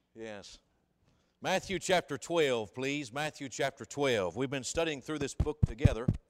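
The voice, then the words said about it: Slightly scratchy, hoarse voice. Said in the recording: “My voice is a little bit scratchy”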